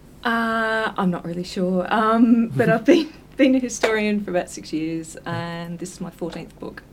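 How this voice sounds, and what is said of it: Slight Australian accent. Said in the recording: “you've got a bit of an Australian accent.”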